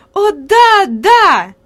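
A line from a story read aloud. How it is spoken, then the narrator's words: Lively exclamation. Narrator (Russian): живо воскликнула Хади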